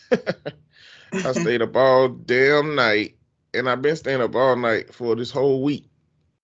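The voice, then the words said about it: Sleepy, tired-sounding voice. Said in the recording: “I sound a little bit crazy. You can tell in my voice. I'm not sick. I'm just sleepy.”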